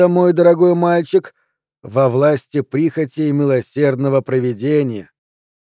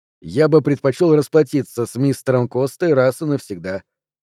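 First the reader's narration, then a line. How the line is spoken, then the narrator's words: Calm reply. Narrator (Russian): спокойно ответил Кинард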